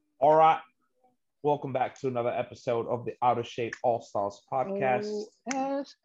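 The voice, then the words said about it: Put-on English accent. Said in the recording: “Why am I speaking in an English accent?”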